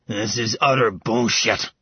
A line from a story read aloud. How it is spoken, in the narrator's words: Dev snarled